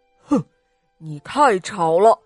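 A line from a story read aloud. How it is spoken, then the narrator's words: Furious, panting. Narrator (Chinese): 这可把马兵先生气坏了，他喘着粗气说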